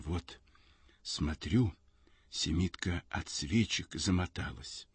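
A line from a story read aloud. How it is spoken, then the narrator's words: Barely audible, trembling. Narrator (Russian): Губы у ней дрожат, и она говорит чуть слышно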